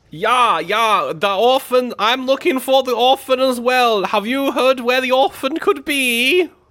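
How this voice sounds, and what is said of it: Poor fake German accent. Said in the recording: “are you English? ... That's the worst German I've ever heard.”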